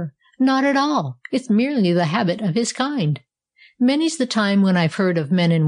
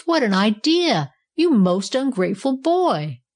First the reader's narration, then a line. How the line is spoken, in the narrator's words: cried the Bellows